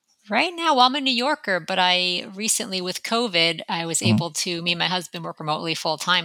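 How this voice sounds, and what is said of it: Slight New York accent. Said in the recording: “I could definitely see the New York or hear the New York accent there a little bit”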